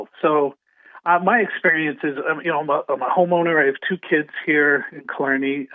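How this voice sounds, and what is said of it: American accent. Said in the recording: “you may have an American accent ... they hear the American accent”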